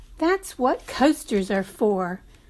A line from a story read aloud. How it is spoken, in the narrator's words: Miss Jeter said something back in a snappy voice